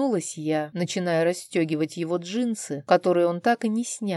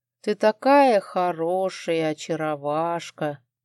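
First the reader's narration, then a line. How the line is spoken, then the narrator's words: Playful drawl, husband. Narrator (Russian): забавно растягивая слова, протянул муж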